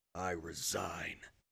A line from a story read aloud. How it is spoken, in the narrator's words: his voice grating, he said